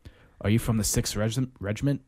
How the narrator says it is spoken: Mortimer asked

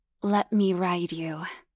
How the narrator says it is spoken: purred hotly

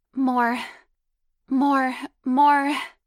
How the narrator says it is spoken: demanded, moaning with a high-pitched voice

